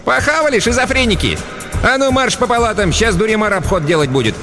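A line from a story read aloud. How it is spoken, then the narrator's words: Cheerful shout. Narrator (Russian): Хмызочка была в хорошем настроении, весело прикрикнула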